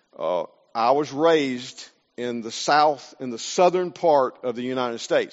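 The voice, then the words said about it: Southern US accent. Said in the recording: “I'm from the South, from the States... My accent gives me away very quickly”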